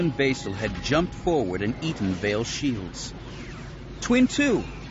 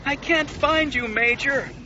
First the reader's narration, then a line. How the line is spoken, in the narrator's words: her wingmate wailed